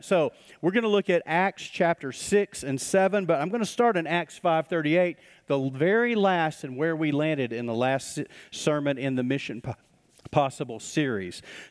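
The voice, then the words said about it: Out of breath while speaking. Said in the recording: “ran out of breath”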